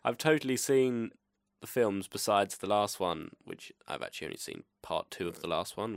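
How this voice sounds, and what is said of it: English accent. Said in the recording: “I'm English ... by hearing my accent”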